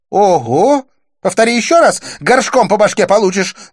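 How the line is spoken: Yelling. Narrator (Russian): завопила Дива

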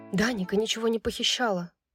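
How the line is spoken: Shivering whisper. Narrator (Russian): прошептала Брайс, вздрогнув от новой волны озноба

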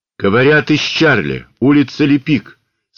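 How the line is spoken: Loud, into microphone. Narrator (Russian): сказал громко в микрофон

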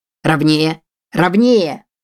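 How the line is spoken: Shouting. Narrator (Russian): кричал он

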